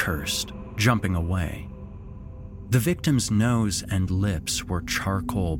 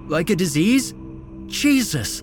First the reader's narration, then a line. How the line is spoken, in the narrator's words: Esteban sputtered